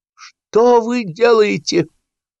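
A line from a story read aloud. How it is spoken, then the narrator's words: Shouting. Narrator (Russian): закричал Сапфиров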